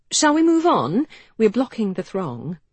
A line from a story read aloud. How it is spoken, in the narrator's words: she said brightly